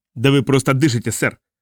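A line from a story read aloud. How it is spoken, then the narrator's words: Sergeant barking. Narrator (Russian): гаркнул сержант морской пехоты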